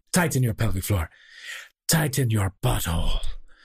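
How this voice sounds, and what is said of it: Thick French-sounding put-on accent. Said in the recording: “a very thick, I guess, French accent, Belgian ... with a thick accent like that”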